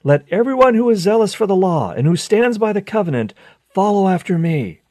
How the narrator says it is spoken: Mattathias went through the city, shouting

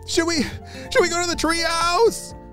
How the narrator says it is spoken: Charlie shouted

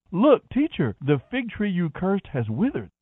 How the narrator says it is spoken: Peter exclaimed

